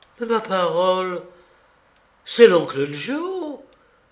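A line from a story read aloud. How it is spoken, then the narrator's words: Exclaiming. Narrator (French): s'écria Jean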